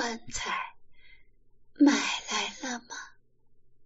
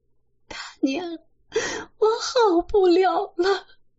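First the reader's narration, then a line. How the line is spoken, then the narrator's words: Crying. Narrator (Chinese): 李瓶儿 哭起来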